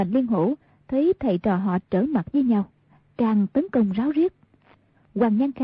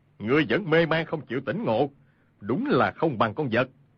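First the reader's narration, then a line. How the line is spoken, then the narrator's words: Angry. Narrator (Vietnamese): Khưu Sử Cơ tức giận nói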